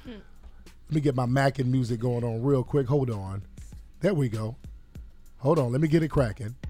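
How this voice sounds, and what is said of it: Rough, strained voice. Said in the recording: “my voice is real janky right now, fam... As you can hear,”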